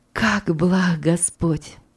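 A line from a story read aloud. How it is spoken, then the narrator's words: Whisper. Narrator (Russian): прошептала мама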